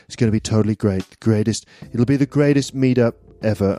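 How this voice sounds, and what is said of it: Imitating Donald Trump. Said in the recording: “I slightly slipped into a Donald Trump impression ... it's not even a very good impression.”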